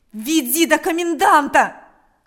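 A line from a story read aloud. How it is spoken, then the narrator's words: Repeated shouting. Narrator (Russian): кричал Степан снова и снова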